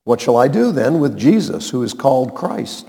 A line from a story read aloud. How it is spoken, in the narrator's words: Pilate asked